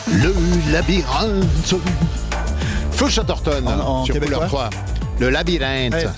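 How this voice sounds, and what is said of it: Put-on Canadian French accent. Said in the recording (French): “Je commence, à l'avoir, l'accent canadien.”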